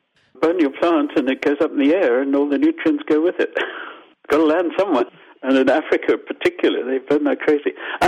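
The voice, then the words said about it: Zimbabwean accent. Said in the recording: “I'm Zimbabwean, as you probably got from my accent. Sorry, Zimbabwean Canadian.”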